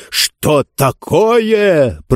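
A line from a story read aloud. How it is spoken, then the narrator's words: Roaring. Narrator (Russian): проревел Нетвердаебл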